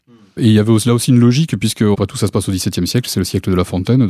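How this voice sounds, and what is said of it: Southwestern French accent. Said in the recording (French): “Vous avez un accent, ... du sud-ouest ... Pas tout à fait gascon”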